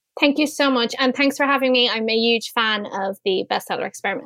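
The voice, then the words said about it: Lovely Irish accent. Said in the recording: “She has the most loveliest accent I think I've heard from many of our guests ... I've got a soft spot for the Irish”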